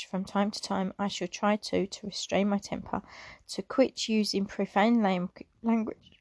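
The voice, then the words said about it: Emotional reading voice. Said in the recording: “getting a little bit emotional.”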